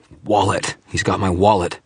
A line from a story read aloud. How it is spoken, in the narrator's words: managed to gasp